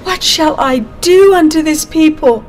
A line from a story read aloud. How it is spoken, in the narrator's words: In distress, Moses cried to the Lord